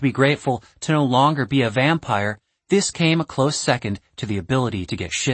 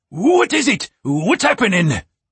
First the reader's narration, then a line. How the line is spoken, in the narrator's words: His little monkey shrieked